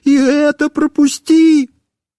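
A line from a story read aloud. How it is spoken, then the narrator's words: Wailing and pleading. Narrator (Russian): я снова начинал вопить и умолять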